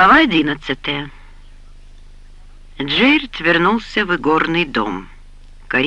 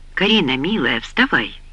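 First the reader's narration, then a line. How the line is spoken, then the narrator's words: Soft. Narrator (Russian): мягко сказал он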